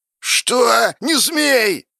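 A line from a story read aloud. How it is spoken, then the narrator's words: Shouted. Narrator (Russian): закричал Лень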